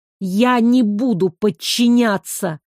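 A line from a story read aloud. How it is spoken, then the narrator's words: Girl, through gritted teeth. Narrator (Russian): Процедила девочка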